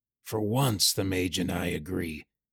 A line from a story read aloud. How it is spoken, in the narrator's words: Callum muttered